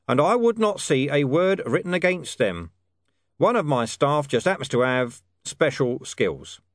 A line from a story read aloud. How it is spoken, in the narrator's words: he said in a level tone